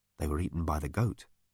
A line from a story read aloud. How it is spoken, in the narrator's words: he said softly